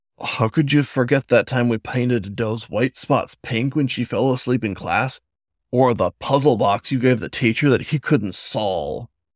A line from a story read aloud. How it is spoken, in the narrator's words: A chuckle escaped the raccoon's muzzle